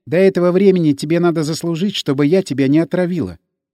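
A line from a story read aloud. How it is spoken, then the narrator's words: Laughing. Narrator (Russian): засмеялась Энн Хилли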